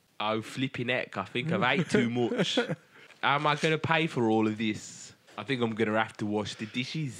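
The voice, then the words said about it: Put-on Brummie accent. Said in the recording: “No more Brummie accents.”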